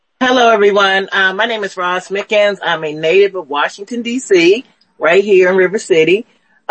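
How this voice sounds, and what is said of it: Worn, strained voice. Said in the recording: “Excuse my voice. I've been on the phones pretty much most of the day.”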